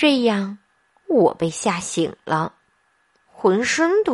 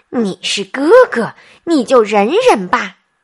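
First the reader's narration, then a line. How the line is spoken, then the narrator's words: Louder shout. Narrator (Chinese): 妈妈却用更大的声音冲我喊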